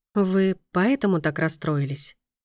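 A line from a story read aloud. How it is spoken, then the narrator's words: Gentle question. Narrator (Russian): спросила Мия мягко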